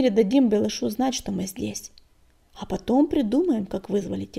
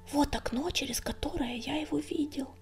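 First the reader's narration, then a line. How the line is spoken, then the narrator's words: Whisper. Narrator (Russian): прошептал Горелый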